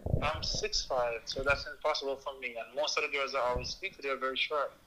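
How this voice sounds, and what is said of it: Jamaican accent. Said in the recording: “Your accent is beautiful. ... I'm from Jamaica, Portland, Jamaica.”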